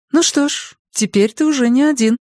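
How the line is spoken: Almost cheerful remark. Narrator (Russian): почти весело заметила Надин

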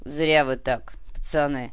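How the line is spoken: Calm, smiling. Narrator (Russian): спокойно улыбнулся тот

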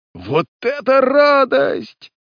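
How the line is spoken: Lively joyful shout. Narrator (Russian): закричал верный Мэкер, с живостью юноши

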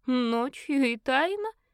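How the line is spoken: Snort. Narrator (Russian): фыркнула фаворитка

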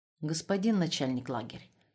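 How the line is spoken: Quiet but firm. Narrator (Russian): сказал он тихо, но твердо

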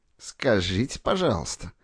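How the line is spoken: Through gritted teeth. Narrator (Russian): процедил сквозь зубы Корягин

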